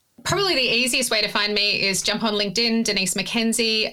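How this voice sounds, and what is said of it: Australian accent. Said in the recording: “delightful Australian accent”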